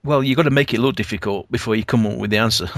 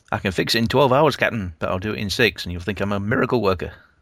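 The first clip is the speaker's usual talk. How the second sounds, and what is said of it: Poor Scotty impression accent. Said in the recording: “This is the Scotty effect. ... Sorry about the accent, folks. That really didn't come out very well.”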